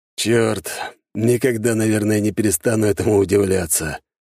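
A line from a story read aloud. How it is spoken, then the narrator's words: Boar's sigh. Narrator (Russian): вздохнул стоявший неподалеку вепрь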